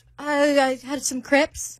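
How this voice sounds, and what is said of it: Bad put-on British accent. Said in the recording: “Our accents suck. ... Evenly bad. ... Y'all tied for the worst British accent. ... Bad.”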